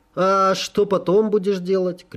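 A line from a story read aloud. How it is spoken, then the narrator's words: Shouted after, king. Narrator (Russian): крикнул мне вслед король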